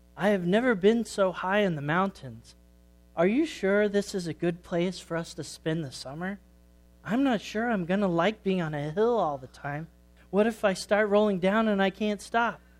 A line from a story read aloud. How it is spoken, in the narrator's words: Sammy sighed